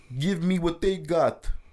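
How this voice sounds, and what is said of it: Put-on Armenian accent. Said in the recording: “That's my Armenian accent”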